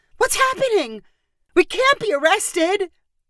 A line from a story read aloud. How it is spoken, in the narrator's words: Emily finally freaked out and cried